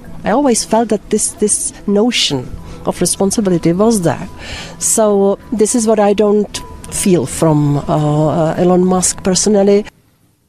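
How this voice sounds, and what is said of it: Old-fashioned 1930s-sounding accent. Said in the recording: “I love the accent too. It's very 1930s”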